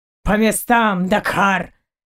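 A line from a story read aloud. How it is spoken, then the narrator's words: Roaring. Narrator (Russian): взревел Заури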